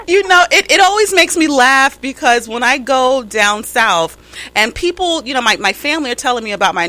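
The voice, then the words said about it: New York accent. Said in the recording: “we do have that um, New York accent going on”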